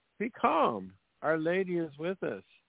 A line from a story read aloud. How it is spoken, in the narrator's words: Maria cried out